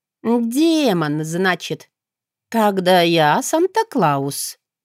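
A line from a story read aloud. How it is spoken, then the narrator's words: Nervous drawl with chuckle. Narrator (Russian): протянула, нервно усмехнувшись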